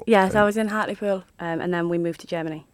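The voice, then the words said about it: Hartlepool accent. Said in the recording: “So that's the accent.”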